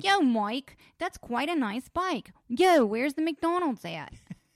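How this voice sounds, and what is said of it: Poor Philly accent drifting to Fargo. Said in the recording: “Paul cannot get me to do a Philly accent to save his life ... I can't do it ... It always tips over into Fargo at the end”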